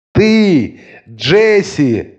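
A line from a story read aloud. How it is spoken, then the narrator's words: Threatening shout. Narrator (Russian): крикнула мать, в голосе ее послышалось обещание чего-то более серьезного, чем затрещина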